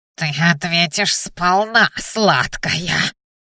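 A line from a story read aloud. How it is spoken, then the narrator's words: Nasal, menacing. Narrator (Russian): гнусавил синенос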